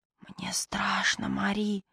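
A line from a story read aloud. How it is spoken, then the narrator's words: Choked frightened child's whisper. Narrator (Russian): сдавленно прошептал мальчик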